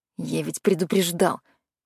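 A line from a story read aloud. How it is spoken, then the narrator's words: Grumble through teeth. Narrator (Russian): буркнул Макс сквозь зубы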